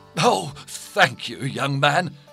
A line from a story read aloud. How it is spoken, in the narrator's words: cried the merchant gratefully